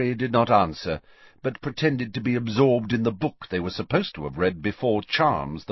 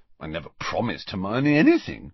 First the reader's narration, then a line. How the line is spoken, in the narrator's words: Ron mumbled